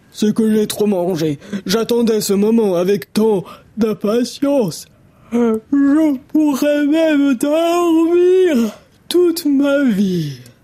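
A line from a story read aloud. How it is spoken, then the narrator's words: Grumbling yawn. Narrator (French): grogne Papa Ours en bâillant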